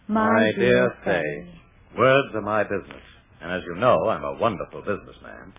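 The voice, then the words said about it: Formal yet warm tone. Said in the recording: “Very formal ... correct yet warm tone of voice”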